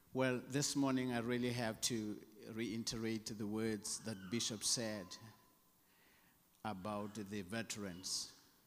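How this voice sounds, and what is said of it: South African accent. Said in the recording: “my South African accent”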